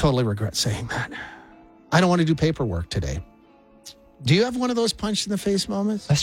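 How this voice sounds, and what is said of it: Usual voice. Nothing is said of it.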